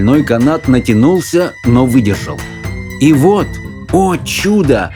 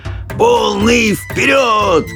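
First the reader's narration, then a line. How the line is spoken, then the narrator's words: Old man's shout. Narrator (Russian): закричал дедушка Джо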